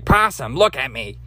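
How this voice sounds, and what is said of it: Bad impression of Rocket Raccoon. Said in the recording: “the raccoon. What's his name? Rocket ... And that's also another bad impression. I'm not good with all of the voices”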